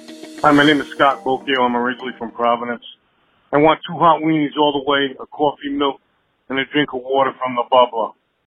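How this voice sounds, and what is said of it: Rhode Island accent. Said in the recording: “record your own Rhode Island accents”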